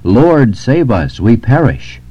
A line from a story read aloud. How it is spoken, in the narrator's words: The disciples in the ship hastened to him when he was asleep and cried out